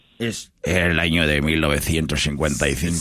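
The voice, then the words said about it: Documentary narrator voice. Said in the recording (Spanish): “voz de documental”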